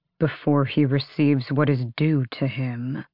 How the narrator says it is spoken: Lorkin growled

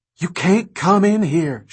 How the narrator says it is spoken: she cried, hardly louder than a whisper

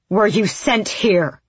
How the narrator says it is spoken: She roared

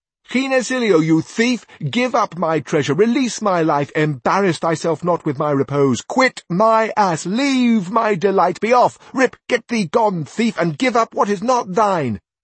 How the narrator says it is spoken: Sancho shouted out to him

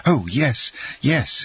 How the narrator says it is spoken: exclaimed Dantès

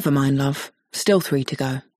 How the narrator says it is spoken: says Ted kindly

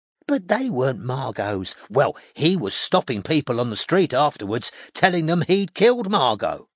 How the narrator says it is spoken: Irene told Strike excitedly

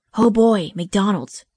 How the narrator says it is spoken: exclaimed Casey

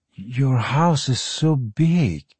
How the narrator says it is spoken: Parry breathed, eyes rolling wide with wonderment

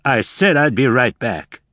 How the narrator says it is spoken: he snapped

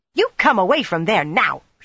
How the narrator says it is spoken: she snapped

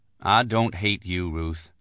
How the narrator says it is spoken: I said evenly

